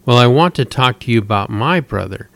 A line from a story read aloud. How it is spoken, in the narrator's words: Tess answered back in the same annoyed tone